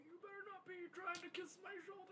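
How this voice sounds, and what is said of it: Imitates an old man's voice. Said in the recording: “That is exactly his old man voice.”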